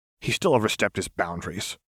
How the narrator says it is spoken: Fox muttered

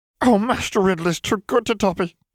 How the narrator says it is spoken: wailed the elf

